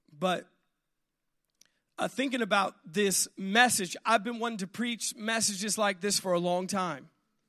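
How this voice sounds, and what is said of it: Raspy, congested voice. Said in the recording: “my voice is a little raspy because I've had some congestion here”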